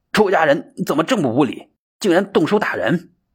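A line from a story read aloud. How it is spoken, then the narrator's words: Sharp retort. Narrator (Chinese): 英行针锋相对，说道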